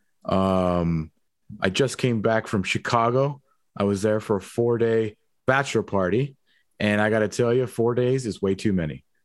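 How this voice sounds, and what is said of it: Raspy, strained voice. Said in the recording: “I feel like I sound awful ... my voice is like barely coming back ... apologize for the raspy voice today”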